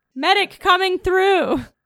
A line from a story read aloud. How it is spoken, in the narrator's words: run yelling